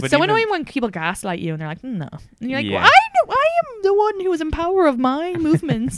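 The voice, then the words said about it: Irish accent. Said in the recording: “my accent is pretty like recognizable, but like maybe it was another Irish girl”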